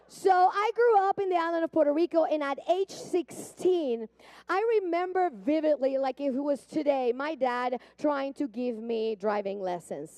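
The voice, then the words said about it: Puerto Rican accent. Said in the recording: “I grew up in Puerto Rico. I don't know if you hear the accent. It's there. I know you hear it.”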